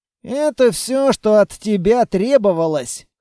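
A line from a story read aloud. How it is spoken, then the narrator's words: Snorting. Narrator (Russian): хмыкнул Квартник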